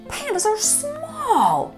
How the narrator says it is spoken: shouted Ping

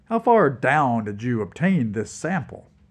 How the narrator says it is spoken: Revel laughed

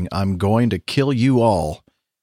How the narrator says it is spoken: a crew member shouting

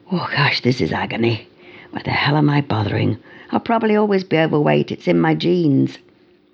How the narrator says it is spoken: Totally out of breath, flopped wearily, muttering to himself

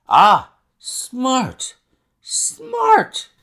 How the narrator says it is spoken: he cried, in a kind of ecstasy of delight

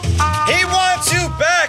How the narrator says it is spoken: he screams into the night air

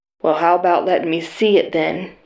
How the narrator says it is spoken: mock snarled

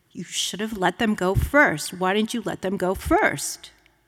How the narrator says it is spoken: he said more urgently, more sternly

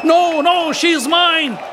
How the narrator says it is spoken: shouted the other

